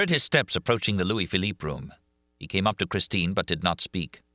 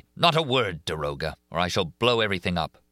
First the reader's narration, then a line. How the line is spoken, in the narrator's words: he said coldly